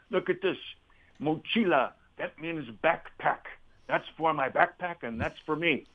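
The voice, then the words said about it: Imitated Argentinian accent. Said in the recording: “in his Argentinian voice.”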